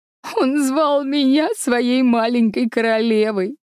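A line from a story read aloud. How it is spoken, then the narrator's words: Sobbing. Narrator (Russian): всхлипывала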